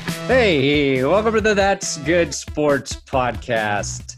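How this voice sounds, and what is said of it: Podcast host voice. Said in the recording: “This is a podcast voice.”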